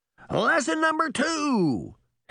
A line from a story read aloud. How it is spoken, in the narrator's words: Henry shouted to the girls